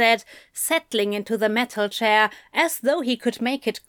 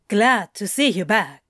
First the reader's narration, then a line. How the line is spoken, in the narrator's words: said, as smoothly as possible, given the inconvenient fact that his heart had begun doing a first-rate imitation of a woodpecker